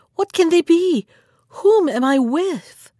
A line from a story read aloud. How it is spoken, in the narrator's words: she cried